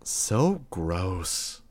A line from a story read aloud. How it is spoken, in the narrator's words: Imp muttered